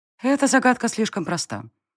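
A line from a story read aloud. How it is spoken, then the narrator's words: Calm reply. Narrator (Russian): спокойно отозвалась девушка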